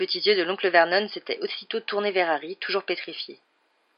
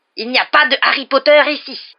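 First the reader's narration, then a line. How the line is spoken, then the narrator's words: Thundering. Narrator (French): avait-il tonné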